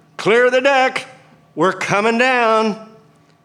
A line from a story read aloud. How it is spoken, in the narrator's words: I yelled into the radio at Memphis Center